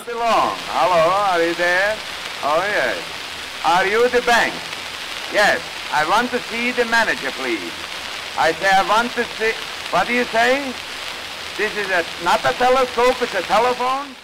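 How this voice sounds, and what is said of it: Strong Yiddish immigrant accent. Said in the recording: “a Jewish immigrant with a very strong Yiddish accent”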